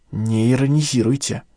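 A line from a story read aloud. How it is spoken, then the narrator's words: Hoarse rasp. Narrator (Russian): прохрипела Виола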